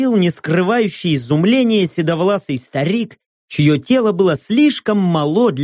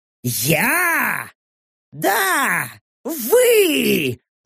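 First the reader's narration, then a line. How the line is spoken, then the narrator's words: Irritated growl, old man. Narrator (Russian): уже раздраженно рыкнул старик, не привыкший, чтобы с ним разговаривали подобным тоном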